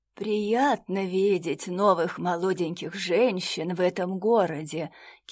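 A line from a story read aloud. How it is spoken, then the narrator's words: Sour voice. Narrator (Russian): кислым голосом сказала леди Денель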